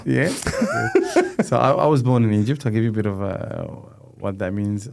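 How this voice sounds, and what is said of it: Noticeable foreign accent in English. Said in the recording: “it's very obvious in the accent”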